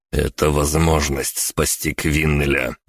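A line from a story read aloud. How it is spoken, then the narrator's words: Said through teeth. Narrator (Russian): процедил я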